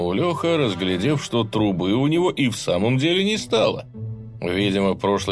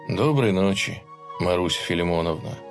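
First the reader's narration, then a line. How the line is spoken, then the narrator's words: Sad muttering. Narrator (Russian): грустно пробормотал он в пустоту двора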